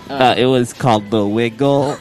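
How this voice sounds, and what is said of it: Imitates another person's voice. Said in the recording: “my Blaine Perry impression”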